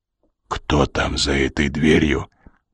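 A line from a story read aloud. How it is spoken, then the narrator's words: Whispered. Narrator (Russian): прошептал Коридон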